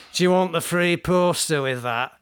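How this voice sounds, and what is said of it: Put-on northern English accent. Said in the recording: “I think you have to do this in a northern accent”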